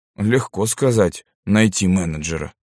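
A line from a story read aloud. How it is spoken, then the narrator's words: Grumbling. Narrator (Russian): проворчал я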